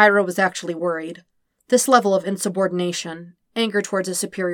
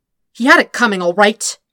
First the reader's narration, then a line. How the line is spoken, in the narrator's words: snapped G